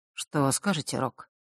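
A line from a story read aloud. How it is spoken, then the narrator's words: Quiet. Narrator (Russian): тихо произнес Миракл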